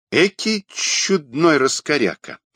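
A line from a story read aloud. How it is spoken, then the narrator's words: Thoughtful. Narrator (Russian): задумчиво, произнес Кумбарович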